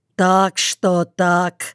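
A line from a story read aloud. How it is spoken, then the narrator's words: Gloomy low drone. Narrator (Russian): угрюмо прогудел Прохор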